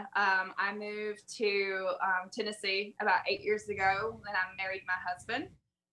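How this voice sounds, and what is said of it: Southern US accent. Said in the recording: “my awful accent, I'm from South Alabama, southern Mississippi area”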